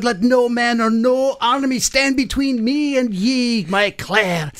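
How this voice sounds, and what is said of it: Put-on Scottish accent. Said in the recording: “you lost the accent here ... I can't get into this if I don't believe that you are my Scottish rogue”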